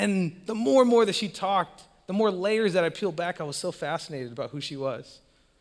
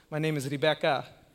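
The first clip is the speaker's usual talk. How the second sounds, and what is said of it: Poor put-on New Zealand accent. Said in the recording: “that's a terrible accent, but she's from New Zealand”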